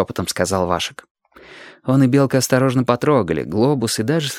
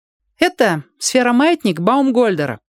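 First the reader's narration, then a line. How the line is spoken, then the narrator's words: Loud, echoing. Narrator (Russian): громко сказал Сёга, и голос его разнесся в оба конца коридора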